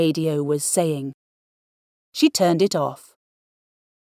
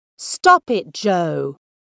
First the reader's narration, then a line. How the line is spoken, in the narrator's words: shouted her mum from the sitting room